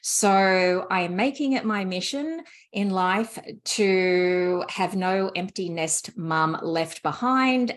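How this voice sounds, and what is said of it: Speaks with a foreign accent. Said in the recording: “I love your accent. It's like one of my top favorite accents.”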